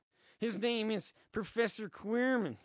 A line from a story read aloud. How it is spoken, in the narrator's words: he stutters